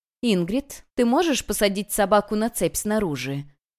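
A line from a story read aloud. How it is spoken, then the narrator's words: Soft but insistent. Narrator (Russian): Она говорила мягко, но настойчиво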